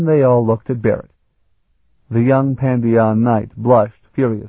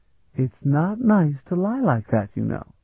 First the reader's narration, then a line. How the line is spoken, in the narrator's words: Ilana said gently